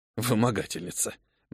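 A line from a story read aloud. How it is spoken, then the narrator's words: Good-natured grumble. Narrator (Russian): беззлобно проворчал кавалер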